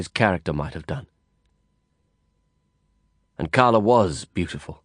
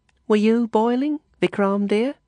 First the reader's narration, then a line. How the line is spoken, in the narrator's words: Letty asked sweetly